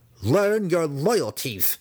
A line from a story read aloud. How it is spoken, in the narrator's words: Massage snarled at Gwenhiver